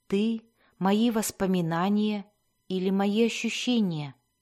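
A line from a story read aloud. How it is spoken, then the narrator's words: Whispered question. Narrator (Russian): шепотом произнесенного вопроса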